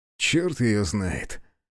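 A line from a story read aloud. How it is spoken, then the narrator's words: Short laugh. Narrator (Russian): хохотнул Азар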